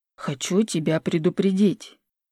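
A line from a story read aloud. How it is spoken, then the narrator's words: Booming whisper. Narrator (Russian): говорил Василий гулким шепотом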